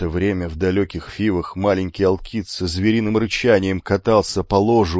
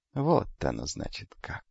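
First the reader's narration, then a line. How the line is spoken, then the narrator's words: Thoughtful young man, to himself. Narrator (Russian): задумчиво произнес юноша, обращаясь исключительно к самому себе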